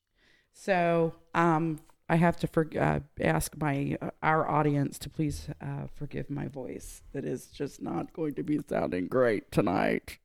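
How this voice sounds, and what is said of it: Hoarse voice. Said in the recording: “I have to explain why I'm hoarse ... I am actually just hoarse”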